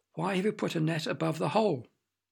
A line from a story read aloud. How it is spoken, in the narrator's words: in a very puzzled voice asked